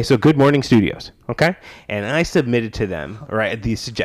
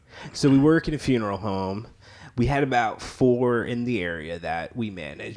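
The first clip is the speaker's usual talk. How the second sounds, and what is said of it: Put-on drunk-sounding voice. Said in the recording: “I'm going to try doing my drunk voice.”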